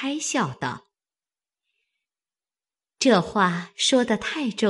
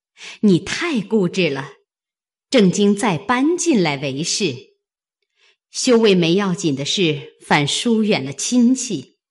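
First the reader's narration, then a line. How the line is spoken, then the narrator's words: Laughing together. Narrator (Chinese): 王夫人、凤姐都笑道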